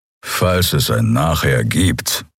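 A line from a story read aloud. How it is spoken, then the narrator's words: Growl. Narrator (German): knurrte Kero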